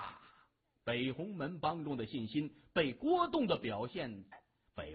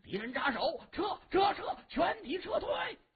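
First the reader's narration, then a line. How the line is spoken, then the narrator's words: Shouting while running. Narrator (Chinese): 他 一边跑还一边大喊着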